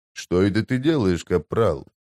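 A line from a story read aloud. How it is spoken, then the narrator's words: Quiet, through clenched teeth. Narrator (Russian): тихо процедил он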